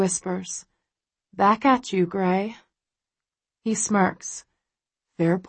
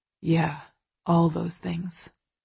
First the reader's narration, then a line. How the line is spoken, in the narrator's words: he murmurs